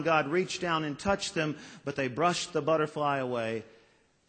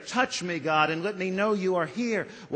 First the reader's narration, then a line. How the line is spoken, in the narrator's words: they cried out in despair